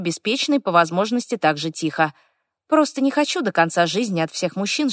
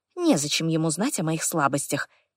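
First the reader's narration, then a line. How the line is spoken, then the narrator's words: Quiet answer. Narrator (Russian): тихо отвечаю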